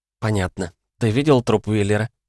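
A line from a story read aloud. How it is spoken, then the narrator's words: Calm businesslike question. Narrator (Russian): спокойно и деловито спросила Сара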